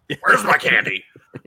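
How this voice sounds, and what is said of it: Imitates a movie limo driver. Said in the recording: “I'll do my impression of him”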